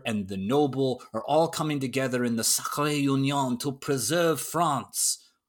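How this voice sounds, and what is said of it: Poor put-on French accent. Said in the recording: “that terrible French accent”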